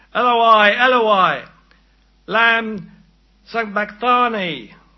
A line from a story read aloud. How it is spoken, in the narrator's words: Jesus cried out in a loud voice